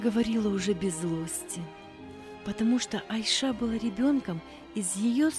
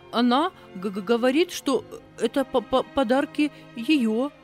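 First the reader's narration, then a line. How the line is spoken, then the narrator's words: Stammering. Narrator (Russian): заикаясь, проговорила служанка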